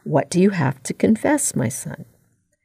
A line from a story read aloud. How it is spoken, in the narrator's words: the voice behind the screen quietly ask